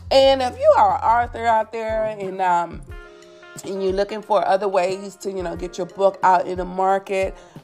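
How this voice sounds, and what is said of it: Hoarse, sore-throated voice. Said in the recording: “I am a little bit under the weather. My throat is a little sore and hoarse,”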